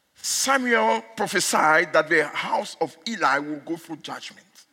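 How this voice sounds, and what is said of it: Speaks English with an accent. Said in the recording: “If you don't hear my accent, then it's too bad. ... when I speak in America, they don't talk to me about my accent, only in South Africa.”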